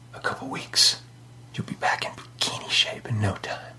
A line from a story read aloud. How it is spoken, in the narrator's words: whispered in her ear